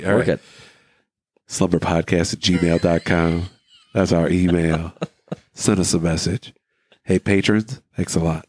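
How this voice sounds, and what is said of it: Congested, husky voice. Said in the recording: “I am so congested right now. My head got a little bit of sexy voice going on.”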